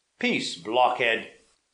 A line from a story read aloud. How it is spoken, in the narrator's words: said the prince angrily